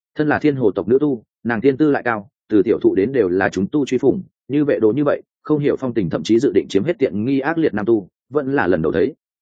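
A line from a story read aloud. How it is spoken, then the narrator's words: Stiff smile, angry. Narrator (Vietnamese): Từ Thanh Toàn dáng tươi cười cứng ngắc, tức giận nói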